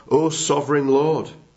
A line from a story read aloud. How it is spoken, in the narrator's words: said Abraham